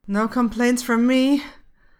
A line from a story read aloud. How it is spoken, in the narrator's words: he says, even though it sounds more like a moan to his ears